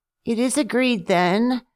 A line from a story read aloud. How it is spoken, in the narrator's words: purred Pussy